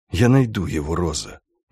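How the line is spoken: Whispered promise. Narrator (Russian): шепотом пообещал Сенкевич

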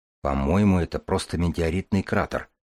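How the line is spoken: Quiet remark. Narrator (Russian): вполголоса заметил Ромашин

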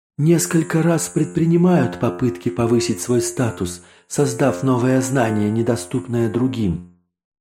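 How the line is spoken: Sighing. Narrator (Russian): вздохнул счетчик

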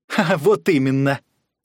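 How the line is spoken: Laughing reply. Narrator (Russian): засмеялся в ответ Шустрый

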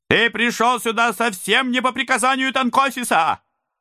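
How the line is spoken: Soldier shouting. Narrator (Russian): закричал первый солдат

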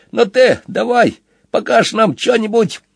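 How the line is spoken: Shout. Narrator (Russian): закричал

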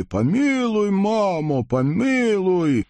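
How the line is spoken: Shouted in unison. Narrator (Russian): запорожцы все закричали

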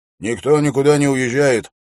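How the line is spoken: Stern sentry. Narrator (Russian): строго сказал часовой

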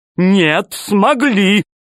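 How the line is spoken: Shouted. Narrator (Russian): крикнул Толстяк

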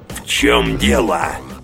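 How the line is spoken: Growling. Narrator (Russian): прорычал знакомый голос

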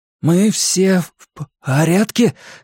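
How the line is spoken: Hoarse question. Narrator (Russian): хрипло спросил Билл

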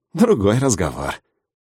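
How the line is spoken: Chuckling. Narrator (Russian): хохотнул Вадим Вадимович

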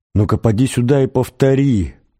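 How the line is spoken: Furious howl. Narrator (Russian): взвыл голос в новом припадке ярости

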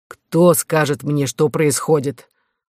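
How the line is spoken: Stern older voice. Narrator (Russian): строго спросил Фиак, который, будучи вдвое старше своих спутников, исполнял должность общего родителя

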